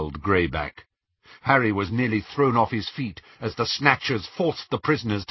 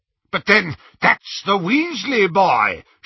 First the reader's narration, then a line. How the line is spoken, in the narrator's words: shouted Lucius